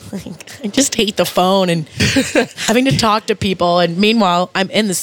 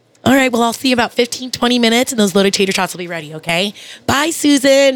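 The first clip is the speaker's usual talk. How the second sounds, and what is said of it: Overly nice customer-service phone voice. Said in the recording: “my customer service voice because I'll sound so nice”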